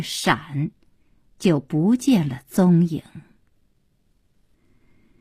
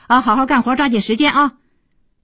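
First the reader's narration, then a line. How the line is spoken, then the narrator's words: Perfunctory reminder. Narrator (Chinese): 敷衍地叮嘱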